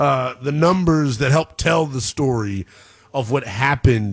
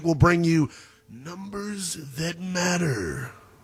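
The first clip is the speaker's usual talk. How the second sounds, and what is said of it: Big announcer-style voice. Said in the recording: “That was my big voice guy impersonation.”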